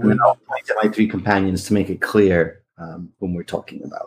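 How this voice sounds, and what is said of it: Usual voice. Nothing is said of it.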